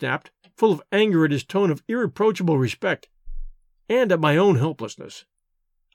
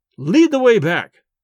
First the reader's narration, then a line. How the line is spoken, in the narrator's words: roared